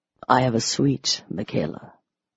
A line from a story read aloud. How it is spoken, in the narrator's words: he said softly